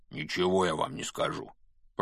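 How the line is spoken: Grumble. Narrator (Russian): пробурчал Хагрид

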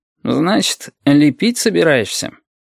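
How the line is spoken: Lazy smiling tone. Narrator (Russian): Улыбнулся, лениво сощурился и сказал

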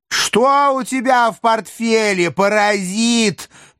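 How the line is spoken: Shrill cat-like shout. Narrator (Russian): пронзительно прокричал, похожий на кота

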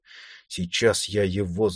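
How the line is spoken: Muttering. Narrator (Russian): забормотал он

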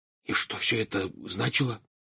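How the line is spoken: Whispered. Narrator (Russian): шепотом спросил Рон

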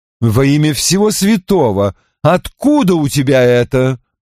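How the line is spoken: Exclaiming. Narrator (Russian): воскликнула миссис Дан

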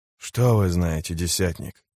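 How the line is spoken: Hoarse rasp. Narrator (Russian): прохрипел он

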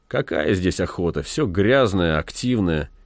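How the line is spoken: Grumbling. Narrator (Russian): Зев проворчал только

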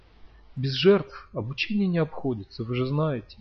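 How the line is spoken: Sigh. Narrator (Russian): вздохнул Лаздей

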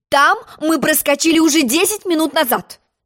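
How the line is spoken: Shouting. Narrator (Russian): крикнула королева

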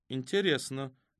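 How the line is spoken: Very calm. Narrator (Russian): Очень спокойно проговорила Аларика

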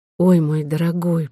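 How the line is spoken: Whispered. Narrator (Russian): прошептала она

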